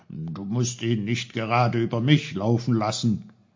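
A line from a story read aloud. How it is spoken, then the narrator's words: Called out. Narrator (German): rief er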